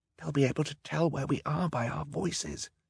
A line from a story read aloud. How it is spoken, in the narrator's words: he whispered